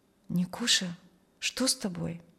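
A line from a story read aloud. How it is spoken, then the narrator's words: Quiet question. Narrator (Russian): рядом с ним кто-то тихо спросил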